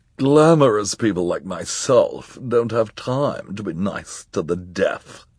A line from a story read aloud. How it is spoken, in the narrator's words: she snarled